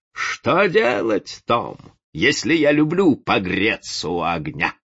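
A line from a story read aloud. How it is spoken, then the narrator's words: Wild laughter. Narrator (Russian): король отвечал диким хохотом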